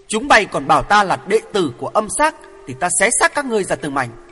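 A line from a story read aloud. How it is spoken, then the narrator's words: Shouted. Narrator (Vietnamese): Hoàng Thượng Chí hét lên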